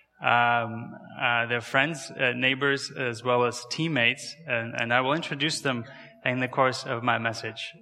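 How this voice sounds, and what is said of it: Kazakh accent in English. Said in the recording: “my name and my accent is not really from around here... I was born and raised in Kazakhstan.”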